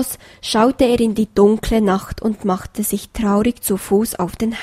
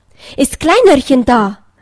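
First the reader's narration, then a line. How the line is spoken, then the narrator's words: Excited call. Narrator (German): rief er aufgeregt seiner Frau entgegen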